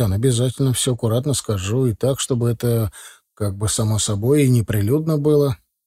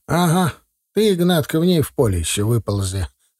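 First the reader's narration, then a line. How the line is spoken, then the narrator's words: Mocking snort. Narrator (Russian): хмыкнул Соловьев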